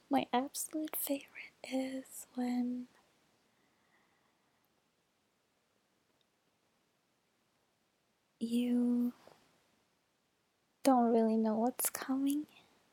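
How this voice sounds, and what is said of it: Rough, just-woke-up voice. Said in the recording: “my voice is a little rough. I just woke up.”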